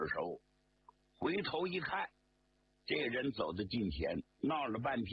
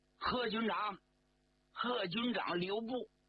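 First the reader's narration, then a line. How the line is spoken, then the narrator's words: Calling out. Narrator (Chinese): 有人叫他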